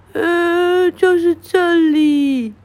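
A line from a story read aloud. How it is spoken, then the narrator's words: Sobbing. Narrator (Chinese): 豹小弟哭得呜呜咽咽说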